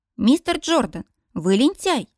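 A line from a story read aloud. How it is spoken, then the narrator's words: Indignant young woman. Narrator (Russian): возмущенно бросает мне девушка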